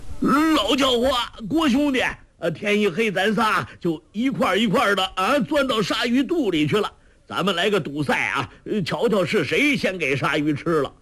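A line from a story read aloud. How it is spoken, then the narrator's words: Calling out. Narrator (Chinese): 周伯通叫道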